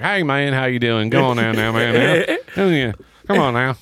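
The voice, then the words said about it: Imitated twangy rural voice. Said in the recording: “how the fuck is your voice that much of a twang?”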